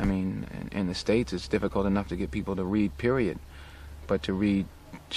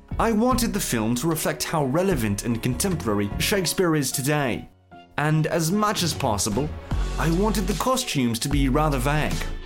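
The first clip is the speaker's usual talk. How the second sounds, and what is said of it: Deliberately bad British accent. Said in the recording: “My most abysmal British accent”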